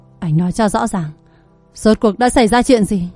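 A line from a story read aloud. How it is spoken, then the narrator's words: Suppressed angry roar. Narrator (Vietnamese): Anh gần như gầm lên, kìm nén sự tức giận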